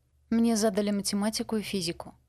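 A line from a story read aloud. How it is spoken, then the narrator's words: Sighing. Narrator (Russian): вздохнула Люси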